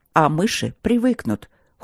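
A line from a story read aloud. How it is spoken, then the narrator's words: Cold, curt. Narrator (Russian): холодно отрезал мужчина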